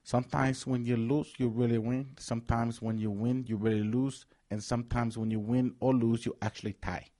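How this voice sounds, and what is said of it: Put-on Latin accent. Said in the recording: “Your Latin accent's phenomenal, by the way.”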